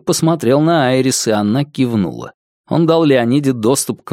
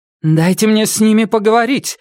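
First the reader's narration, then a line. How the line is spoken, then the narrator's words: Insistent, agitated plea. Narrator (Russian): настойчиво и взволнованно попросила Леонида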